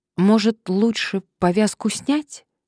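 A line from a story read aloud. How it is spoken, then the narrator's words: Uncertain suggestion. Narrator (Russian): Надежда неуверенно предложила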